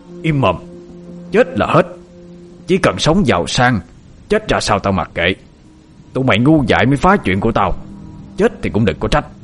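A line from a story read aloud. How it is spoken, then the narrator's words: Harsh menacing voice. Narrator (Vietnamese): Hiếu gằn giọng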